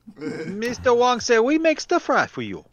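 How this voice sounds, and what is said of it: Poorly done mock Chinese accent. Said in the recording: “that is the worst imitation of a Chinese person ... ever.”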